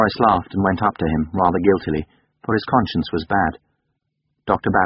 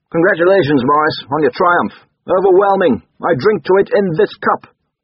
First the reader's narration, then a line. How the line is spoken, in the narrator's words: Barry, their neighbour from home, called out in his alarming way